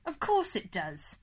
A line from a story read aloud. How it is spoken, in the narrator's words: he laughed